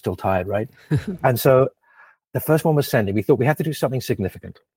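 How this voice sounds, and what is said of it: Noticeable foreign accent. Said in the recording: “despite my funny accent”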